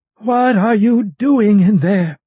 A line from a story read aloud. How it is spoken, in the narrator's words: she demanded through the door